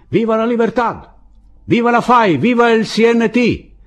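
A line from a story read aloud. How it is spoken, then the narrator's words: Shouted back from parapet. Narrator (Italian): gli gridarono di rimando dal parapetto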